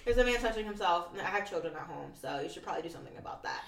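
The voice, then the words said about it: Deadpan flat delivery. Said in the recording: “Absolutely deadpan.”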